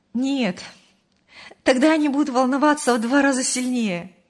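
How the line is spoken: Laughing. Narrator (Russian): рассмеялась Мария

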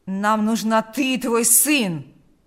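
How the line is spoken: Growling. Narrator (Russian): прорычал Карп

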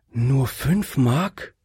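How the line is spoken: Sigh. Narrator (German): seufzte die Dame

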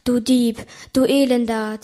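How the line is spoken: Hissing. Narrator (German): zischte es

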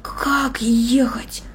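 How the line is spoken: Whisper. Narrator (Russian): прошептал он

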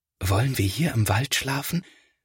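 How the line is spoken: Quiet whisper. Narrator (German): flüstert Felix, denn er möchte die Tiere nicht stören

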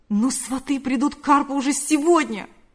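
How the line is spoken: Exclamation. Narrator (Russian): воскликнул Павел

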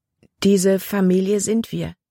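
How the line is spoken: Plain. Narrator (German): fragte Libby

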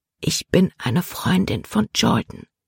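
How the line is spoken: Whisper. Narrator (German): flüsterte Libby

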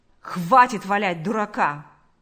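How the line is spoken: Rough. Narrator (Russian): сказал он грубо

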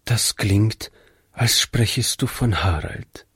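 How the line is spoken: Quiet remark. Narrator (German): meinte Frau Jensen leise

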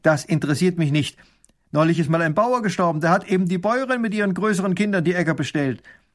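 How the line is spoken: Stern reply. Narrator (German): Baron von Raffigny antwortet streng

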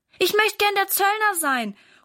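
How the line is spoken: Calling out. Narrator (German): ruft Valentin

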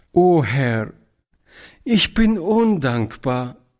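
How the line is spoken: Tear-choked cry. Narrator (German): rief Toni mit tränenerstickter Stimme

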